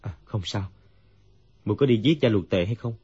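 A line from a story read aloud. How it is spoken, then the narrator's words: Dazed, sighing. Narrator (Vietnamese): Dương Quá như tỉnh mộng, thở dài nói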